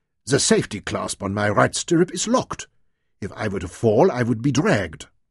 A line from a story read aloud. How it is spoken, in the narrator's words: exclaimed irritably